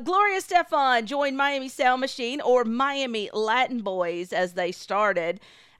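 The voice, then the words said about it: Mild Southern US accent. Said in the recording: “how Southern I am, my country accent as they call it... that's the accent that you hear. So just a little bit.”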